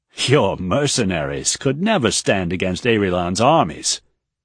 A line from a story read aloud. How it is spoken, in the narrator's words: Ehane scoffed